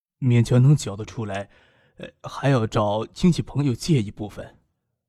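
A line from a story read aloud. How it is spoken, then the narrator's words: Dry strained voice. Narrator (Chinese): 周父声音有些干涩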